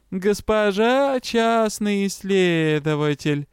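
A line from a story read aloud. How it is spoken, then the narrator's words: Mocking drawl. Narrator (Russian): издевательски протянула Ригра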